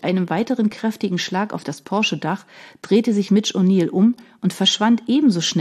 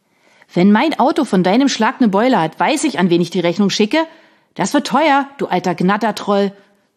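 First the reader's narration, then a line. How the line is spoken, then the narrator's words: Angry shouting after someone. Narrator (German): schrie Sean, jetzt jedoch sichtlich verärgert, hinter dem alten O'Neill her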